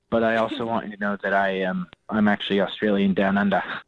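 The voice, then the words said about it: Terrible fake Australian accent. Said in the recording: “my fake accent ... That was a terrible accent ... You used every Australian”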